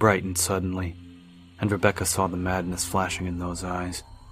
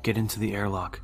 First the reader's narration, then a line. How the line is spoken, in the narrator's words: he said calmly